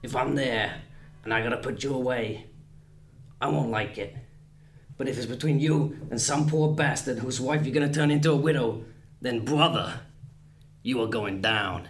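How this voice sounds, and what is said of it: Imitates another person's voice, intense. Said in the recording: “I'm going to do a rather crude impression. So Pacino says to De Niro, he's looking all intense”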